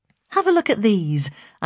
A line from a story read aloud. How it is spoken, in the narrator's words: I said brightly